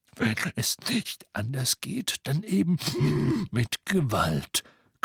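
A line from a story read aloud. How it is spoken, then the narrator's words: Growling. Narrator (German): knurrte Moody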